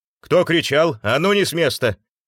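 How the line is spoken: Crew chief's shout. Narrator (Russian): выкрикнул старший экипажа

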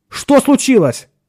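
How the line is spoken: Almost shouted. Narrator (Russian): почти крикнул Ширин

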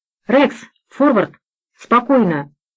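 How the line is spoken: Shout, slightly unsteady voice. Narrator (Russian): не совсем твердым голосом крикнул немец

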